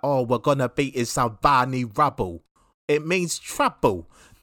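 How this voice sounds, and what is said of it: Deliberately bad Cockney accent. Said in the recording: “a Cockney accent... that was bad... me doing a bad Cockney... terrible... Accent”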